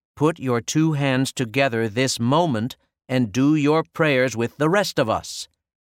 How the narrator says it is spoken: said Sister Michael Mary, raising her voice

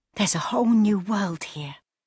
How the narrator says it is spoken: breathed Leela

